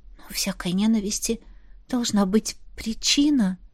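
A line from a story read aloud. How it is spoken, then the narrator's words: Whisper. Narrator (Russian): шепнула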